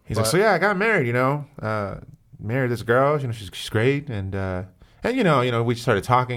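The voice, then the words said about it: Old-timey voice with pauses, drawn-out words. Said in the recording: “I wish I could do a good Norm MacDonald impression ... he has like an old timey like way of talking ... He has like a lot of like random like pauses and like drags out words”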